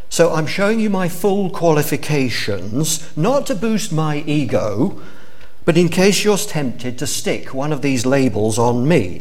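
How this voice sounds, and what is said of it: English accent. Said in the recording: “I was born in England, as you can probably guess from my accent”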